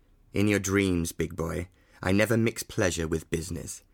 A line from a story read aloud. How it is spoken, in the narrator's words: Fernley remarked sternly